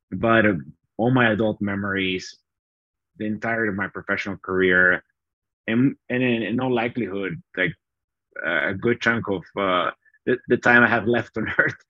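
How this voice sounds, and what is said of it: Bolivian Spanish accent in English. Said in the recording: “I grew up in Bolivia ... I haven't been able to get rid of my accent,”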